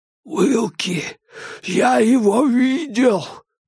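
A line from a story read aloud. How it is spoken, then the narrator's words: Hoarse rasp. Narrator (Russian): прохрипел Диккенс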